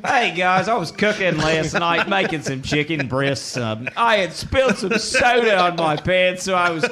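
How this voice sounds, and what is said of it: Australian accent. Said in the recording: “a hint of a accent ... I'm from Australia”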